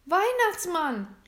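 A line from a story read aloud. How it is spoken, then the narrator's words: Calling out. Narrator (German): rief William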